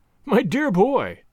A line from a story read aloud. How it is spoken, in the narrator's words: cries he